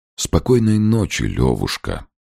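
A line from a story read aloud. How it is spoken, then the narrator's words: Sigh. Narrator (Russian): вздохнул Подтягин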